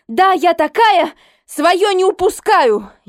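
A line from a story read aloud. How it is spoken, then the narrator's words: Almost shouting. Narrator (Russian): Я почти кричала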